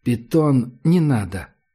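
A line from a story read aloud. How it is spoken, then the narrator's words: Calm. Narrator (Russian): сказала гадалка спокойно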